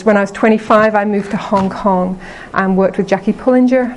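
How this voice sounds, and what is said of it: English Liverpool accent. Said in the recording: “I'm from England originally. I'm uh, from Liverpool. ... as you can tell with my accent.”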